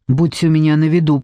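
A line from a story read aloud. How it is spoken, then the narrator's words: Whispered through teeth. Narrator (Russian): прошепел сквозь зубы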